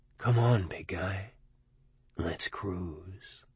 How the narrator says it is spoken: somewhere deep in my mind, a voice whispered

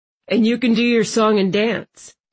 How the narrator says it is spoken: Landon said, laughing

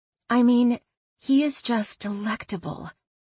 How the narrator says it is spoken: Lulu said quietly

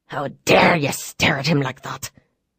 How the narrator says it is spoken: the woman hissed

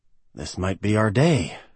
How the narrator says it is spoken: Sam mumbled to no one

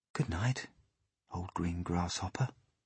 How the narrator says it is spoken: he whispered

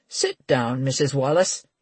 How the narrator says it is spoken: he said kindly

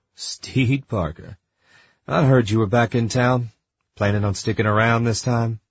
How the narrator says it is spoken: He let out a gruff laugh and said

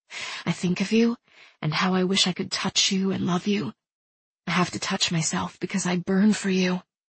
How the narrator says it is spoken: she whispered against his ear

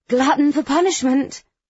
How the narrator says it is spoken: she'll sigh and say it's her third night out that week and exclaim

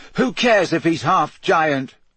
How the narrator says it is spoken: Harry shouted

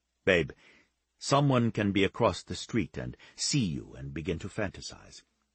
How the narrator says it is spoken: Giovanni said gently

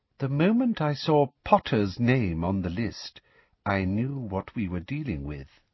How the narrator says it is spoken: she said softly

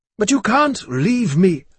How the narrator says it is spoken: I pleaded

